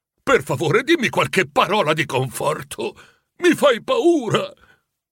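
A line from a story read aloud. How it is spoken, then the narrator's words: Pleading. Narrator (Italian): supplicò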